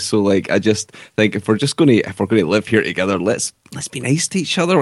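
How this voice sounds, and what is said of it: Accent where hate sounds like hit. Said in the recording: “you said hate, not hit, to clarify people who don't understand your ... Accent. ... I don't think my accent's too thick.”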